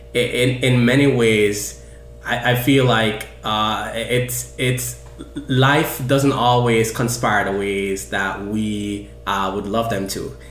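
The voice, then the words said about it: Jamaican accent. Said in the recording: “what comes out very clearly for folks is my accent. You know, I'm from Jamaica.”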